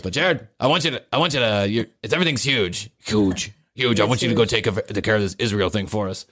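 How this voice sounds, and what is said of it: Donald Trump impression. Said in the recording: “I don't even know how to do a Trump voice”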